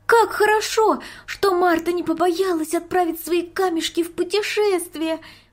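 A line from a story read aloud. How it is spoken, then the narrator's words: Exclaiming. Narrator (Russian): воскликнула Марийка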